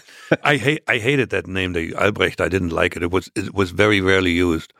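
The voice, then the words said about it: German-accented English. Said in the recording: “So sexy when you speak in German, with a German accent.”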